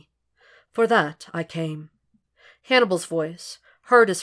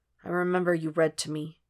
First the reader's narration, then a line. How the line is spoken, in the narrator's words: he muttered